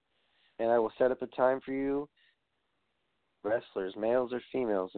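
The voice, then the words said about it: Tired, weary voice. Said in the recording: “I'm fucking tired. So can you tell by my voice?”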